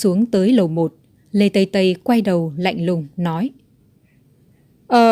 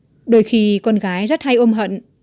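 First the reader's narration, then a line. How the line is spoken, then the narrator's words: Smiling. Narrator (Vietnamese): Lục Tễ mỉm cười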